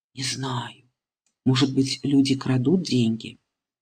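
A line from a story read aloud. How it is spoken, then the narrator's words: Quiet. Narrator (Russian): Мама тихо говорит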